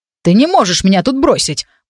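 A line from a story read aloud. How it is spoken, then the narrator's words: Shouted angrily. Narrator (Russian): прокричал сердито принц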